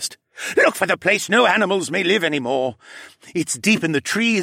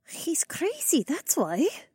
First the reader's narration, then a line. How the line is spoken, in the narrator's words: Rebecca muttered